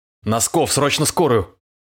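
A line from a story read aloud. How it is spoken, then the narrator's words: Roar. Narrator (Russian): взревел он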